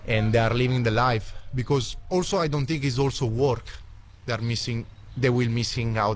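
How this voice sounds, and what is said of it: Italian-accented English. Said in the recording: “an Italian backpacker ... What a fantastic accent.”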